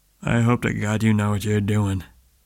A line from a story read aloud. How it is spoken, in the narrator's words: Tom halted in front of Spade, muttering